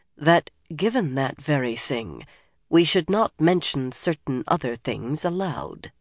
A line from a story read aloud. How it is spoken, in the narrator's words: Nynaeve said softly